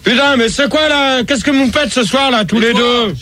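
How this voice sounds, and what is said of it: Shouting angrily. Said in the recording (French): “tu cries ... Tu cries pas, je suis déstabilisé.”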